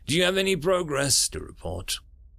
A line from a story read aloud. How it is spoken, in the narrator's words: Sam sighed